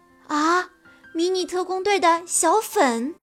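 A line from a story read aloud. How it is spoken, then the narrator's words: Excited exclamation. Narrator (Chinese): 罗伊老师激动地叫了起来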